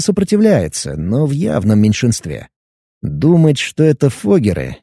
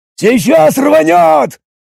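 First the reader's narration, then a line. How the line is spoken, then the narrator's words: Hoarse yelling. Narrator (Russian): Срывая голос, заорал один из прошутеров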